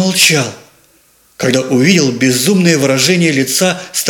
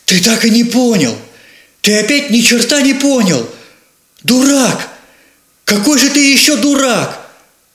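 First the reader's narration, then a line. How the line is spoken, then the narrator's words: Shouted. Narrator (Russian): выкрикнул ему брат Йосик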